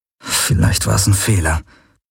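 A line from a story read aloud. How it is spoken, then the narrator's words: Murmured. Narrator (German): murmelte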